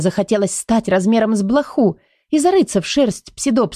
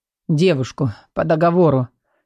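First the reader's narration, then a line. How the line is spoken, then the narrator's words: Father's hoarse correction. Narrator (Russian): сипло поправил отец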